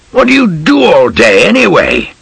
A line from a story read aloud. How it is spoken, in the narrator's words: Bogg shouted